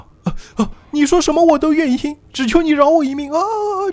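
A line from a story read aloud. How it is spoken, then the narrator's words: Crying, pleading. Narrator (Chinese): 就哭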